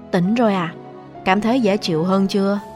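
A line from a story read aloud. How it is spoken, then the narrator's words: Soft question. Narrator (Vietnamese): Tề Thịnh khẽ hỏi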